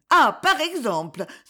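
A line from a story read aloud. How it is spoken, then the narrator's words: Exasperated exclamation. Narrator (French): s'écria-t-elle exaspérée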